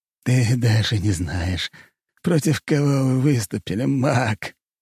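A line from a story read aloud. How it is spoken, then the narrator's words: Hoarse bloody laughter. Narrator (Russian): Антимаг сплюнул сгусток крови и хрипло расхохотался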